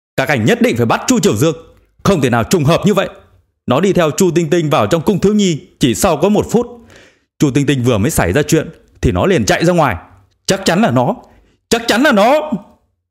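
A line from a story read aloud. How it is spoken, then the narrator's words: Insistent wailing. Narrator (Vietnamese): Vương Giao kiên trì kêu gào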